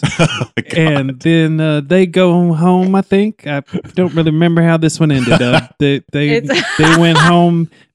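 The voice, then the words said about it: Southern character voice. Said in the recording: “are you speaking Wilford Brimley right now? ... your Southern character”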